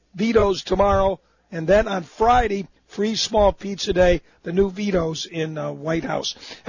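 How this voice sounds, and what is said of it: Hoarse voice, slight laryngitis. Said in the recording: “Battling a little bit of laryngitis, but not too bad”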